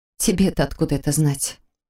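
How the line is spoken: Smirking remark. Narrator (Russian): Он усмехнулся

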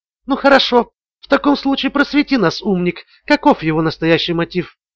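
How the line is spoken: Quiet. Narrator (Russian): тихо произнесла Ламар

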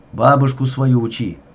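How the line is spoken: Snapping retort. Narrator (Russian): огрызнулся сыщик

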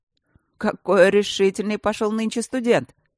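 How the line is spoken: Amused snort. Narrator (Russian): хмыкнул Мартин

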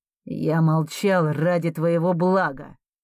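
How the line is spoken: Through gritted teeth. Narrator (Russian): цедит он сквозь зубы

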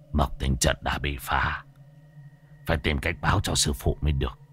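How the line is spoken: Relieved old man muttering. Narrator (Vietnamese): Lão thầy cúng bây giờ mới yên tâm, lẩm bẩm

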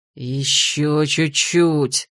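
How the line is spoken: Frustrated near-growl. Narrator (Russian): Почти рычал от досады

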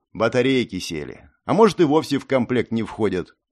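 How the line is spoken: Snorted. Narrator (Russian): хмыкнул

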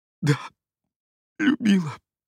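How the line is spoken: Tearful speech. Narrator (Russian): произносит она сквозь слезы

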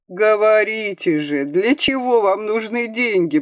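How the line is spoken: Moaning. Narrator (Russian): простонал Кашперов

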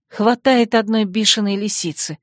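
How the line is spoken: Pained moan. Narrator (Russian): страдальчески простонала я

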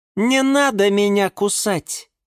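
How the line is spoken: Suddenly loud. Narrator (Russian): вдруг громко сказала гордыня

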